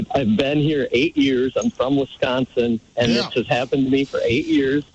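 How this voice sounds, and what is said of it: Northern US accent. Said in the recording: “my northern accent”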